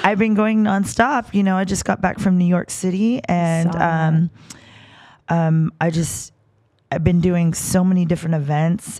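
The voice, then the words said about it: Hoarse voice. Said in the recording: “my voice is kind of hoarse right now... This is the best it's been in the last 5 weeks.”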